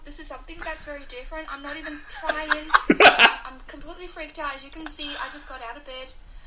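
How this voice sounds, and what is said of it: Australian accent with Irish traces. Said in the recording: “I heard it. I heard Australian there. ... my Aussie accent's back ... it does fluctuate. There's bits of it where you can hear the flatness / the musicalness of the Irish accent.”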